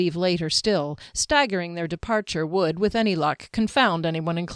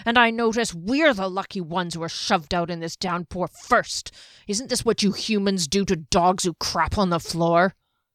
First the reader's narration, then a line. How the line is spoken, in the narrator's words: the dwarf muttered